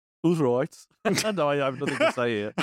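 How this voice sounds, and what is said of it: Put-on Dudley accent. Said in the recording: “he's deployed the Dudley accent. Now we know the smoothness is up to max.”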